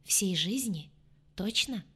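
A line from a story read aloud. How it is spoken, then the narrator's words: Plain. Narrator (Russian): спросила Джемма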